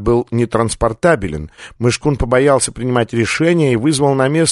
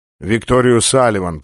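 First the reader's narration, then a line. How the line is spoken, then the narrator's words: Grumbling. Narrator (Russian): проворчал Ван Хорн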